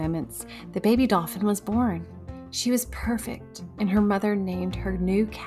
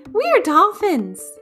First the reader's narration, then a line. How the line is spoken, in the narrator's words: they shouted all together